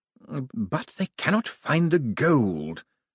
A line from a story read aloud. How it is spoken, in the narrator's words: whispered Malvolio Bent